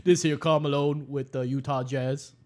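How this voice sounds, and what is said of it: Imitates another person's voice. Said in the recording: “bad impression of a bad impression.”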